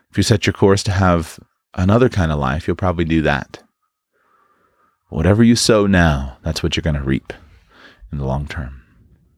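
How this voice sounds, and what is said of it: Worn-out, hoarse voice. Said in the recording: “My voice is about shot... I had to pause a couple times to cough.”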